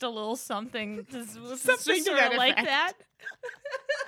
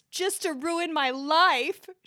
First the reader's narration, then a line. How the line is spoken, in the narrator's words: she yelled